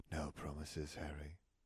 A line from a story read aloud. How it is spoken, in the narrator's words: she murmured